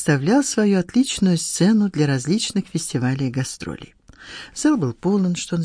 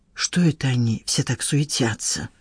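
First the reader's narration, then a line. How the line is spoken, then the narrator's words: Whispered question. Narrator (Russian): шепотом спросил Сан Саныч у Надежды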